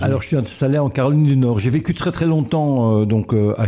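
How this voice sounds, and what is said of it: Belgian French with slight American accent. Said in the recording (French): “un petit accent quand même qui est plus très belge ... américain”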